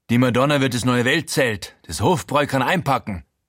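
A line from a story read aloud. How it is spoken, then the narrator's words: Euphoric shout. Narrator (German): ruft euphorisch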